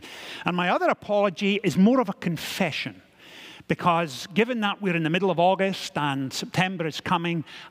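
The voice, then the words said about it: A rather strange accent. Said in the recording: “ease you back into a rather strange accent”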